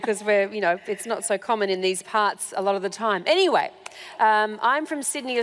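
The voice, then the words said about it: Australian accent. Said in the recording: “as you can hear from my unusual accent, I'm not British. I'm Australian.”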